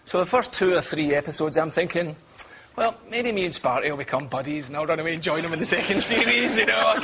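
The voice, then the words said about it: British, possibly Scottish accent. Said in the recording (Italian): “l'accento è ben diverso ... Molto British, e tra l'altro ... credo che sia scozzese”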